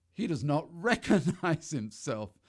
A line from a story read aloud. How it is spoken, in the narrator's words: they laughed